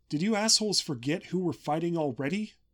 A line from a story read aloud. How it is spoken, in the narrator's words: Your shouts